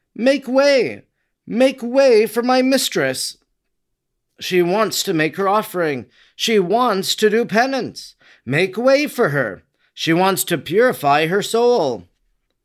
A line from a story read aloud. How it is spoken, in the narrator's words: exclaiming